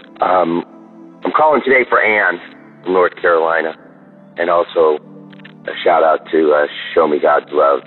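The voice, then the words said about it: Hoarse voice. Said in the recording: “Sorry for my hoarse voice.”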